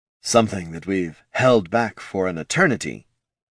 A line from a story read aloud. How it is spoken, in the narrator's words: Johann, his voice low and breathy